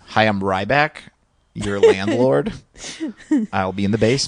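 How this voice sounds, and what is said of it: Poor impression of another person. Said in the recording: “your Ryback's not a good, you don't have a good impression of him”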